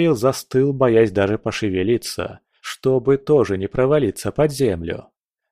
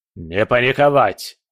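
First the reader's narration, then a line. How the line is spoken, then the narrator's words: Barked. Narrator (Russian): рявкнул он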